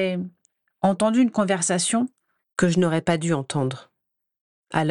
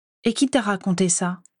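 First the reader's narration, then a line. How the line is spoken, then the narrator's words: Curt question. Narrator (French): demanda-t-elle sèchement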